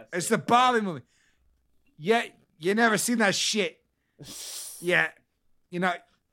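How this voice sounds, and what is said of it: Weak attempt at Boston accent. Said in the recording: “I can't do a fucking Boston accent... It blends too well with the fucking New Yorker”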